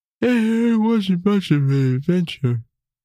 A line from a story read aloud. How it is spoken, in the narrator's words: Tim yawned and thought aloud